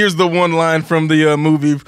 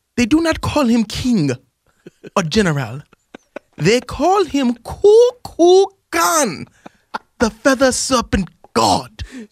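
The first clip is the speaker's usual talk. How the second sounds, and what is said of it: Put-on Wakanda Forever movie accent. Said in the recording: “the Wakanda Forever accent... your Wakanda Forever voice again that you practice”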